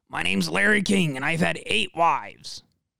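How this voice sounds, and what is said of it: Clogged-throat imitation of another person. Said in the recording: “my Larry King impression ... Excuse me while I not clear my throat, but clog it more ... That's more spot on.”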